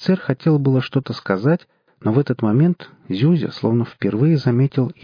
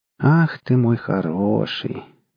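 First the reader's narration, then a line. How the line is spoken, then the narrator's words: Mocking. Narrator (Russian): насмешливо сказал Версоцкий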